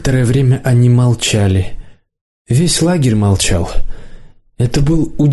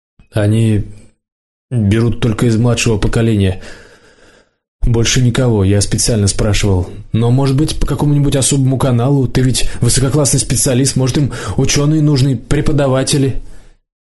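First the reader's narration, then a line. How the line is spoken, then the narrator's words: Tired, smiling. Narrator (Russian): Лидка устало улыбнулась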